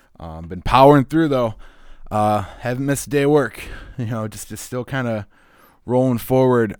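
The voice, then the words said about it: Slightly wheezy, sick-sounding voice. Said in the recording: “I apologize if my voice is a little wheezy throughout it. I've been a little under the weather.”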